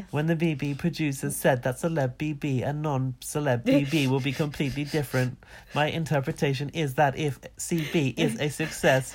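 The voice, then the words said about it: Robot voice. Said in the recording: “Do you like this robot voice?”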